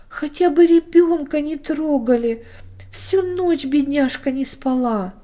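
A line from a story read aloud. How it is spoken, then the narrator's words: Loud sobbing plea. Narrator (Russian): громко всхлипнула и снова попросила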